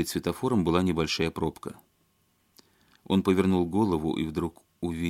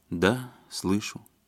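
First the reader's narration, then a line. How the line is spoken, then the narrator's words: Calm. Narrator (Russian): спокойно ответила жена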